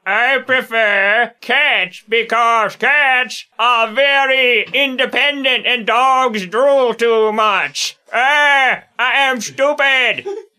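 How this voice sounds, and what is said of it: Put-on dumb alien character voice. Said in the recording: “I'll pretend to be a dumb Earthenoid and do a dumb Earthenoid impression”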